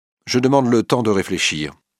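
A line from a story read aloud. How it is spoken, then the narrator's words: Curt. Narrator (French): dit Georges d'un ton sec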